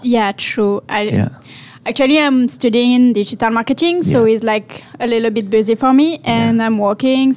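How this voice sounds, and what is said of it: French accent. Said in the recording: “The whole like French accent is awesome.”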